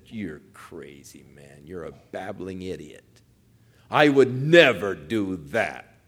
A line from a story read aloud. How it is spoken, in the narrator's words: would have sneered and said